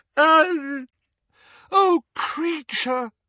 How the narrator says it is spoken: wailed Hermione, who was crying

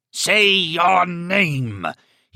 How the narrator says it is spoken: he roared at her

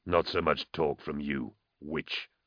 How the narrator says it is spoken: Vorna grumbled in his penetratingly low voice

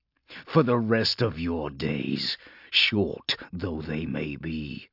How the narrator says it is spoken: Polixis snarled, spittle flecking his lips

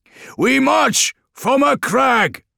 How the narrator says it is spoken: they bellowed, and their combined voices were enough to drown out the thunder of battle

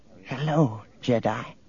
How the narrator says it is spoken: A thin little woman brightened and whispered

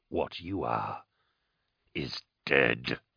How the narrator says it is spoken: Carl rasped

